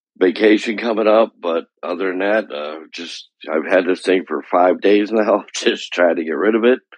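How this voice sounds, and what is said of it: Sick, under-the-weather voice. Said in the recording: “I'm a little under the weather, as you could probably tell by my voice”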